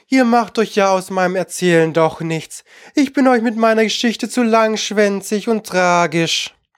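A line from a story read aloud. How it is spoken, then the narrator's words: Little mouse sighing. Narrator (German): seufzte das Mäuslein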